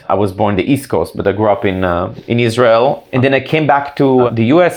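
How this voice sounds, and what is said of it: Noticeable non-native accent. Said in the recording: “I wasn't born here, as you can probably hear from my accent.”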